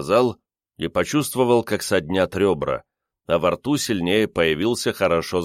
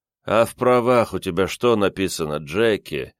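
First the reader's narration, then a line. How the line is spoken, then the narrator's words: Gentle question, sigh. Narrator (Russian): ласково спросил Андерсон и вздохнул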